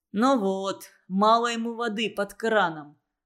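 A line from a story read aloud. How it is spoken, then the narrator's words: Plain. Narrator (Russian): сказал Плюха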